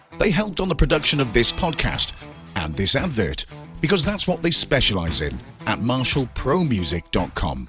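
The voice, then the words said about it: British accent. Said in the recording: “that guy with a nice British accent”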